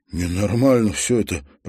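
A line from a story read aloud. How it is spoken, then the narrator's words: Moaning. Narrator (Russian): простонал Халварсон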